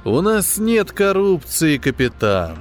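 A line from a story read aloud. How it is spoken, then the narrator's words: Sighing. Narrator (Russian): вздохнул главный интендант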